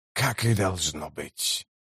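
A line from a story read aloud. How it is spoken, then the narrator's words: Whispered. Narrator (Russian): прошептал он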